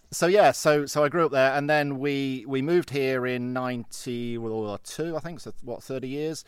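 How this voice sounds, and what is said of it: English Midlands accent. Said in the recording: “Derby, but Nottingham? ... I spotted the accent.”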